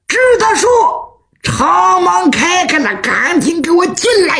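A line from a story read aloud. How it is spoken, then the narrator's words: Shouting. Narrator (Chinese): 徐良冲外头就喊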